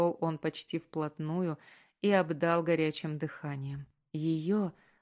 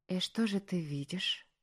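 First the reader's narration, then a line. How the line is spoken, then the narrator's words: Whispered. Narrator (Russian): прошептала она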